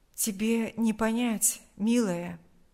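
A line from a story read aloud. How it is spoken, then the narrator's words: Soft reply. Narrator (Russian): Мягко ответил он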